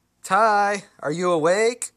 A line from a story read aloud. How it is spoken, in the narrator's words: yelled